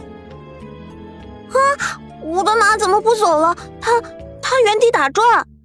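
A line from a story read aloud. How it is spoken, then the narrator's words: Scream. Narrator (Chinese): 玉梦一声尖叫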